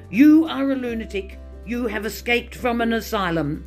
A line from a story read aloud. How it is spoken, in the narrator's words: Finally he shouted